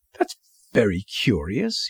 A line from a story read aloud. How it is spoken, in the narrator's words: he murmured to himself